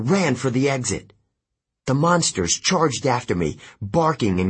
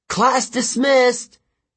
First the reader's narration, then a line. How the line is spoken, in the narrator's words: yelled